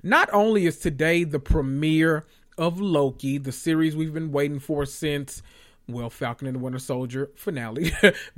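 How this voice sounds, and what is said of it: Gleeful, excited voice. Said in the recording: “You can hear it in my voice. I'm just filled with glee.”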